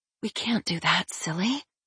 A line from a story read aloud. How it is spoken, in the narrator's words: she whispered